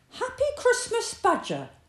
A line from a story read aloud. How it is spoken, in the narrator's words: shouted Rabbit